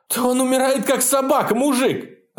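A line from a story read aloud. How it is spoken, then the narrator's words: Screaming. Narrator (Russian): завопил Белый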